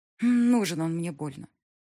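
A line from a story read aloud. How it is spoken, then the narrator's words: Through gritted teeth. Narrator (Russian): процедила Диана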